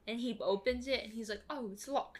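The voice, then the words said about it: Put-on British accent, poorly done. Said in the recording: “It's quite the British accent. ... It's so bad. ... That's actually better than anything I could ever do, though.”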